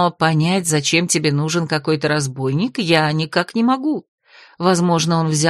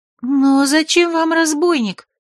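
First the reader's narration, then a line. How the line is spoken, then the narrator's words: Unhappy squeak. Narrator (Russian): Несчастно пискнула одна из куколок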